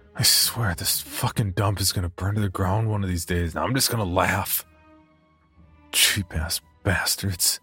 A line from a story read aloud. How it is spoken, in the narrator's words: muttered under his breath